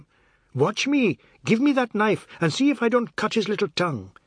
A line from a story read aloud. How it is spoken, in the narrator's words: Chinta interrupted her abuse to scream at him